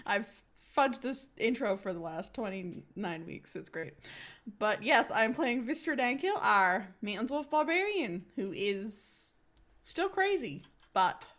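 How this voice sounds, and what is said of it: New Zealand English accent. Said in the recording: “my New Zealand accent”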